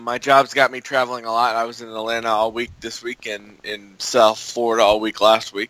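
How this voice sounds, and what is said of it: Voice slightly off from a cold. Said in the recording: “I got a little bit of a cold, which is why my voice is kind of off”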